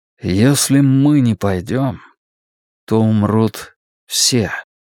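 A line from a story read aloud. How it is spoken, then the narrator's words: Slow, searching for words. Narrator (Russian): медленно, словно нащупывая нужные слова, произнес Стью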